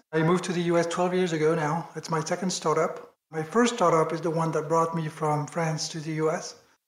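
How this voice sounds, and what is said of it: French accent. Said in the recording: “So I'm French, as you might hear from my accent.”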